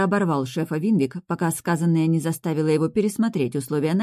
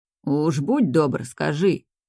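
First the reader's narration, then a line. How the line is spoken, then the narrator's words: Displeased grumble. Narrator (Russian): Недовольное ворчание руководства вместо крика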